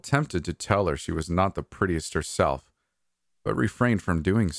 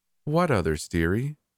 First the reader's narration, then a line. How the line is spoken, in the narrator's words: I sighed